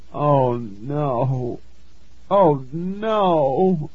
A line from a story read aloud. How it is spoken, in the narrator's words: I moaned